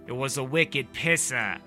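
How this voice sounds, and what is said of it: Bad put-on Boston accent. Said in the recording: “That's my horrible Boston accent.”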